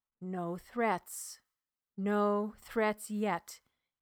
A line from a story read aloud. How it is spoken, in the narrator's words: quietly murmured